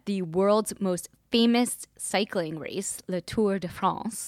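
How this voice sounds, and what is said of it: Put-on accent. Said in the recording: “do you like my accent”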